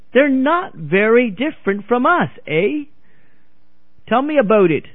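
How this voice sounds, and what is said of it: Lousy put-on Canadian accent. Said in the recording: “I give a lousy Canadian accent”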